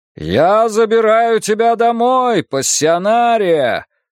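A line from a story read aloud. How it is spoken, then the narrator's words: Yelling again. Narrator (Russian): заорал Вуко снова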